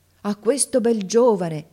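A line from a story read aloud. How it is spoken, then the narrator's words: Ladies exclaiming together. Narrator (Italian): esclamarono le dame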